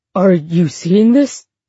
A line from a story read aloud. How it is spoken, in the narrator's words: He said, his voice eager and unsteady